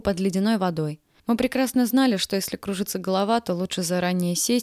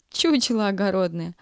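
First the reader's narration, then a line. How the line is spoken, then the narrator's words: Laughing. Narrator (Russian): рассмеялась, увидев Юлю, Зинаида Петровна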